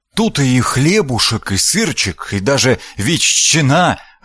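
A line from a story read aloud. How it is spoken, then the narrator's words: Joyful. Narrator (Russian): радостно завел Лобаш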